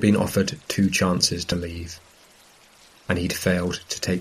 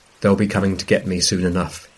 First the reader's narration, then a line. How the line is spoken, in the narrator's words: he says